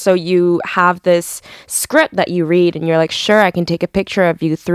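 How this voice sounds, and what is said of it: Usual voice. Nothing is said of it.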